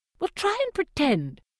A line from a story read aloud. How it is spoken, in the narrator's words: snaps Effie